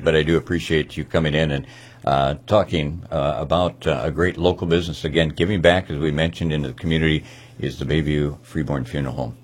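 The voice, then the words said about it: Unusually deep, worn-out voice. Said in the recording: “You can probably tell I'm hoping to have my voice maybe back by Monday, and maybe it's not like a Josh Turner voice as deep ... but lack of sleep”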